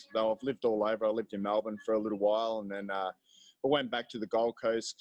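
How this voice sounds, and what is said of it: Australian accent. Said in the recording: “listen to this accent of his. It's really cool, right?”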